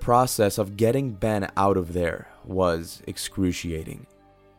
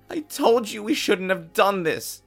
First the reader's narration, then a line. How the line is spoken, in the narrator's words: Ben cried out in pain as his broken limb hit the rock wall